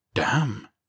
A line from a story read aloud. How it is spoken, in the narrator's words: Dixon breathed